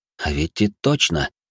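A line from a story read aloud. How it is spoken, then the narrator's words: Group whispering, louder. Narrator (Russian): Наемники принялись шептаться еще громче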